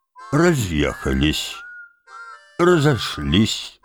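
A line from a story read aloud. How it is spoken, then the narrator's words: Sad explanation. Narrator (Russian): грустно пояснил Курт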